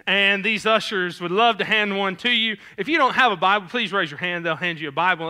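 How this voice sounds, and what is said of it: Southern American twangy accent. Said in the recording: “my southern accent ... as non-twangy as possible”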